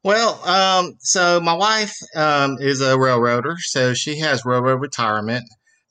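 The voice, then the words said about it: Mississippi Southern accent. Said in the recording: “He is from Mississippi ... claims he doesn't have a bad accent. Is it a bad accent? A pronounced accent.”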